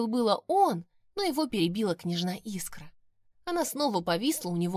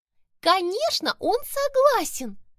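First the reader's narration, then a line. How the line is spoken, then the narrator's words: Joyful squeak. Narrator (Russian): Радостно пискнула она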